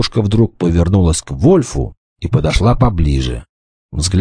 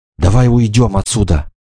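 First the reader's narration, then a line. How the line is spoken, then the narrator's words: Exclaimed. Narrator (Russian): воскликнула она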